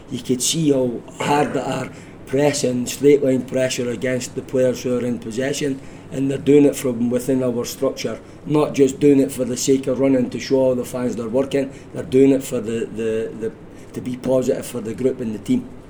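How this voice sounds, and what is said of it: Scottish accent. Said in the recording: “I hope you understand understand this Scottish accent.”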